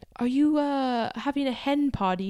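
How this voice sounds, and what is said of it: Put-on British accent. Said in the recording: “this like British dad ... sorry for my accent.”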